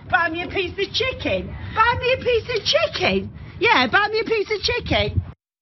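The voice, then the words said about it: British accent. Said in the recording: “the accents are a hint. I love a British accent.”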